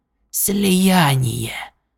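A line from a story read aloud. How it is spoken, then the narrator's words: Whisper. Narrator (Russian): прошептал Врил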